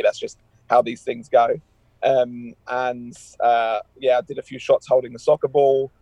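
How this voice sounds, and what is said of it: English accent. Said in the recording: “hearing my accent, for those of you that don't know, this is pretty obvious why they use me for that line ... You were their token Englishman then, right?”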